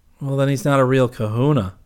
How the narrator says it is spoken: Kip said rather sadly

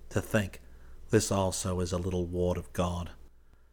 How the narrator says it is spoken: Sylvia half curiously, half tenderly, murmuring

